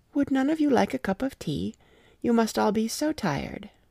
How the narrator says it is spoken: said sweetly

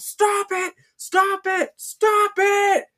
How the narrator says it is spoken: He's yelled

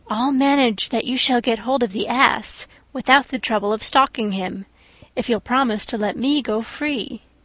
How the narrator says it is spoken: went boldly up to the lion, and whispered in his ear

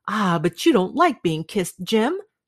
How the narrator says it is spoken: she cried

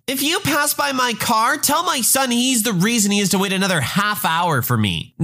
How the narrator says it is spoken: she yells

